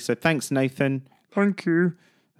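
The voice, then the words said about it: Imitates another person's voice. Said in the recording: “That's my impression of Nathan.”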